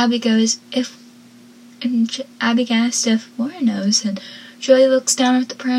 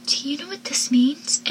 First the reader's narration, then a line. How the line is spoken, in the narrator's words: She whispers